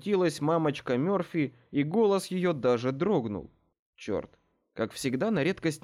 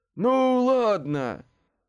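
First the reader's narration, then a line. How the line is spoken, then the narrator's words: Sighing. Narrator (Russian): вздохнул Рич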